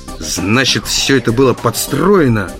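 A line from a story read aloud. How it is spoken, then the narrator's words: Growling. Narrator (Russian): зарычал я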